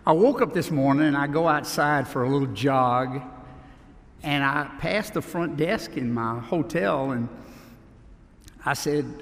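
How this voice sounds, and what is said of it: Southern US Louisiana accent. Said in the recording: “my accent ... down around Baton Rouge”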